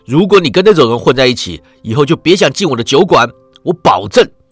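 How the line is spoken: Loud. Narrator (Chinese): 地主大声道

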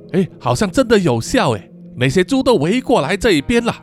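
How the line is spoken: Shouting. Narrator (Chinese): 库玛大喊说

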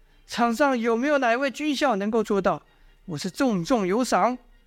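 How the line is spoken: Shouting again. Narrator (Chinese): 又喊了一次，说道

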